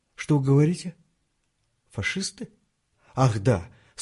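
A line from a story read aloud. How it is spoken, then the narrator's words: Embarrassed old man's sigh. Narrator (Russian): сконфуженно вздохнул старик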